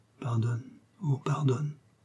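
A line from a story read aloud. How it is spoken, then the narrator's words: Very quiet. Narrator (French): elle ajoutait, même tout bas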